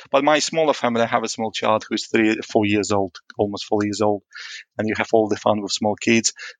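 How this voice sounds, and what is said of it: Moldovan accent with some British influence. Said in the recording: “I'm originally actually from a small country called Moldova. So you can guess it from my accent. ... people joke my accent somewhere between Moldova and UK. People say it's maybe Netherlands”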